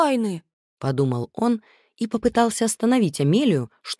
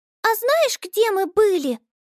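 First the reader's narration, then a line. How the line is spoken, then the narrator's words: Squeaky. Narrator (Russian): пропищала Амелия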